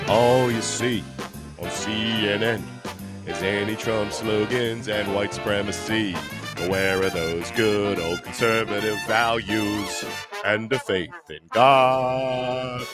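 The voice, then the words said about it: Sings in a deep voice. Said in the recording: “I'm gonna use my deep voice in order to sing this.”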